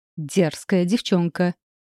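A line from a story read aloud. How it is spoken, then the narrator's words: Angry cry. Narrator (Russian): вскричала она сердито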